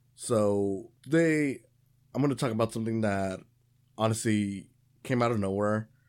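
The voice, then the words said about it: Rough, sore-throated voice. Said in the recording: “if I sound a little weird today, it's because my throat's a little sore ... I have been coughing”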